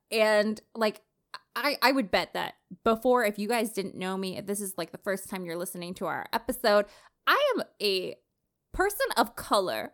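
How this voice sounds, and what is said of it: Slight Canadian twang. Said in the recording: “my little twang of a fucking voice ... I sound like a white girl ... Born and bred Canada, downtown Toronto”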